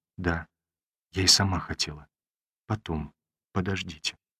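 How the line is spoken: Quick whisper. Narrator (Russian): быстро шепнула

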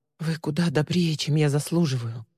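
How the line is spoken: Mumbling. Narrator (Russian): пробормотала Ли

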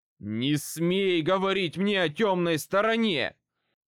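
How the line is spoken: Angry shout. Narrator (Russian): выкрикнул Хот, гневно

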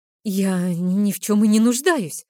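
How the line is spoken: Offended exclamation. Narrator (Russian): оскорбленно воскликнула я

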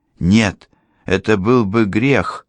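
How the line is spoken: Exclamation. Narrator (Russian): воскликнула Дерика

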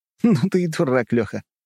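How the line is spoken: Chuckling. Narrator (Russian): хохотнул я

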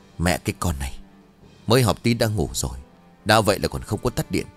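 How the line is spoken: Old woman muttering. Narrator (Vietnamese): bà liền lẩm bẩm

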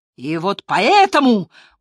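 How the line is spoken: Loud, hurried. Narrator (Russian): громко продолжил Крамер, торопясь закончить, пока Ковицкий не взорвался

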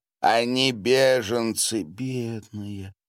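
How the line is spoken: Sighing. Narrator (Russian): вздохнула Анна Леонидовна

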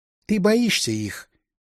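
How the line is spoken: Softly, young woman. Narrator (Russian): мягко сказала девушка

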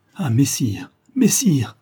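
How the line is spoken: Exclaiming. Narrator (French): s'écria-t-il

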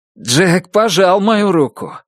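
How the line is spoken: Loud. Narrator (Russian): громко произнес Браттон

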